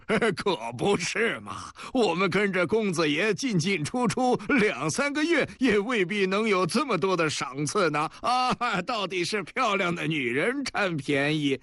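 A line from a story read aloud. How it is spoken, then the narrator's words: Fat man, laughing. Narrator (Chinese): 另外一个黄胖子也笑着说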